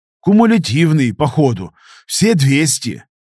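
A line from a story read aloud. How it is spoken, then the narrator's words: Forced out with effort. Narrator (Russian): выдавил я из себя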